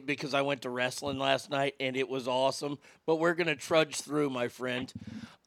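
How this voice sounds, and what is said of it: Rough, worn-out voice. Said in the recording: “my voice is really rotten today”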